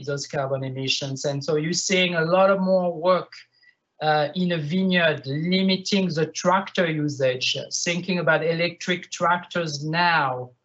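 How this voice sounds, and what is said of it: French-accented English. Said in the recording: “if you understand my French accent”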